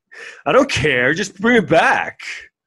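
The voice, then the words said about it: Mocking dim-witted character voice. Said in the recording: “my impression of everyone who's stupid”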